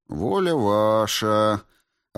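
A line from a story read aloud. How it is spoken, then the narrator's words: Upset drawl. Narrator (Russian): расстроенно протянул Бенедиктов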